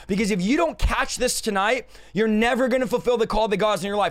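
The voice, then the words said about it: Loud, passionate shouting. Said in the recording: “we're shouting, ... we're just fired up. We're passionate”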